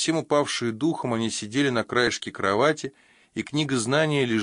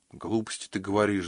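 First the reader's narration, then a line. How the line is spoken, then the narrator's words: Sighing. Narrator (Russian): вздохнула Таинта Лилит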